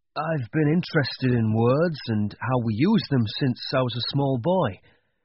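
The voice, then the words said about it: Northern English accent. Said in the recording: “I grew up in the north of England, as you can hear from my accent.”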